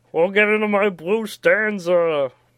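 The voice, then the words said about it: Cartoon character impression. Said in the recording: “my Venture Brothers impression”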